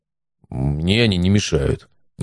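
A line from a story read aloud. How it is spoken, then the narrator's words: Displeased grumble. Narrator (Russian): недовольно буркнул приятель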